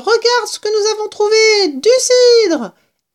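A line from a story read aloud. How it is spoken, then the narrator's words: Exclaimed. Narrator (French): s'écria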